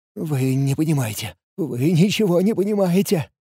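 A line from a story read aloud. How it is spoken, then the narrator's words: Trembling, stammering. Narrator (Russian): трясущимися губами пролепетал Лиур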